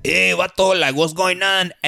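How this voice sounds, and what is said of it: Joe Rogan-style stereotyped Mexican accent. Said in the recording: “if Joe Rogan did an impression of a Mexican, he'd be like ... that's like a Mexican from ... the '90s ... and in East LA”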